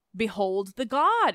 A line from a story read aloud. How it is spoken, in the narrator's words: cried